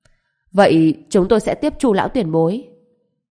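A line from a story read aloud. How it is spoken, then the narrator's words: Cold. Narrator (Vietnamese): lạnh lùng nói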